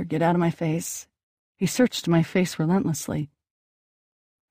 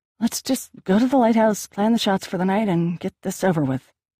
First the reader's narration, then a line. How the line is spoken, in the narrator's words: I said through gritted teeth